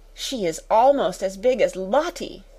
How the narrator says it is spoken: gasped

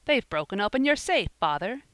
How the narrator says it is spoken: he cried in excitement

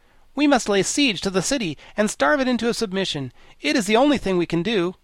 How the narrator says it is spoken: the Wogglebug said in his most positive tone

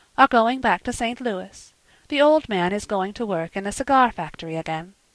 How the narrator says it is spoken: said calmly

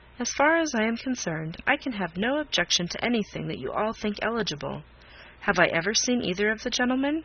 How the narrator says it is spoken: Miss Crawford calmly replied

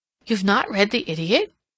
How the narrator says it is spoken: she exclaimed

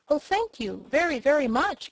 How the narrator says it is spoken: cried Dorothy

